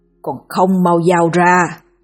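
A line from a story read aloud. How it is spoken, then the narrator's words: Growling shouted command. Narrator (Vietnamese): gầm gừ, thét như ra lệnh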